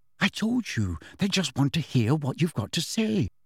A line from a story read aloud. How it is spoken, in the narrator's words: said Hermione soothingly